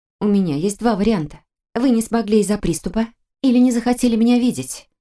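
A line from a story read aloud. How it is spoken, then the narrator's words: Soft remark. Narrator (Russian): Он неожиданно улыбнулся и мягко заметил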